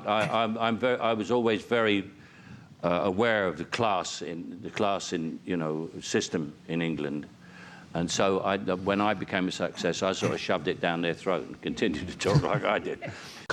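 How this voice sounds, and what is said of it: General London accent. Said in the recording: “Cockney is my natural dialect ... this isn't it. This is just a general London accent.”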